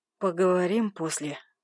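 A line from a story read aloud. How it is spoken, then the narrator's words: Hoarse croak. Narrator (Russian): прохрипел я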